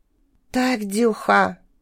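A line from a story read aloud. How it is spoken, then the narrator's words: Whisper. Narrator (Russian): прошептал Грей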